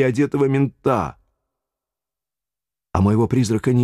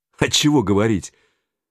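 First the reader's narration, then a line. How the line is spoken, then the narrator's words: Sarcastic snort. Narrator (Russian): Юра саркастически хмыкнул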